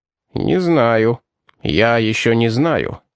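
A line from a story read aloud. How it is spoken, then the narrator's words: Grumbling. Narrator (Russian): проворчал капитан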